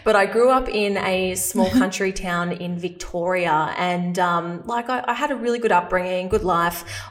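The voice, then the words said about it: Australian accent. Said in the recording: “I'm Australian, if you can't tell from my accent”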